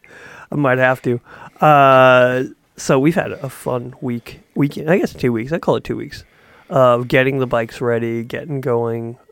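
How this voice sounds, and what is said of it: Slightly crackly, hoarse voice. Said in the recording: “my voice is starting to get a little crackly ... it gets kind of all gravelly and sexy”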